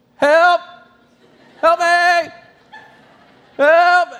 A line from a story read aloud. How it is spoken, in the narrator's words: I just start yelling